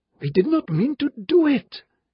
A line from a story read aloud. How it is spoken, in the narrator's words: said frantically